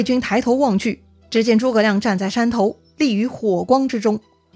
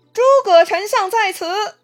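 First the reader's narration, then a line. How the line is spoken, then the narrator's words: Distant shout. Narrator (Chinese): 山上有人大喊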